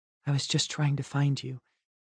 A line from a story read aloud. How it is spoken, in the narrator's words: she said softly